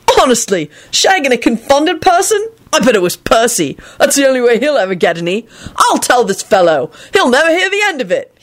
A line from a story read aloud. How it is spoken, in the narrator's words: he finished cheerfully